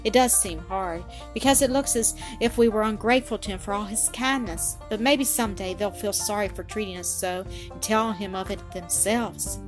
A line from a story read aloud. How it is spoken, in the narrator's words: sighed Nanette